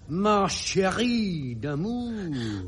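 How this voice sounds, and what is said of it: Put-on French accent, heavy R's. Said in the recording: “put a lot of weight on their R's ... It's the accent, you see. ... I'm just demonstrating my accent. ... you sounded just like Sacha Distel.”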